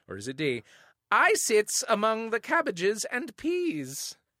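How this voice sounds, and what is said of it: Saucy, old-sounding put-on accent. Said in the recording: “the accent is good. ... Was it good? Was it convincing? ... Did I sound saucy and old? ... You sound old.”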